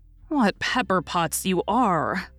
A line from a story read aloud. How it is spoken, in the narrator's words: sighed Joe